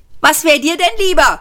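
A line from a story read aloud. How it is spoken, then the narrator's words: Shouted back. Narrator (German): schrie Ford zurück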